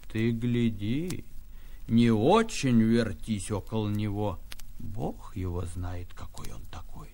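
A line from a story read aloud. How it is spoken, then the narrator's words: Stern grandmother. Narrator (Russian): Бабушка, нахмурясь, строго наказала мне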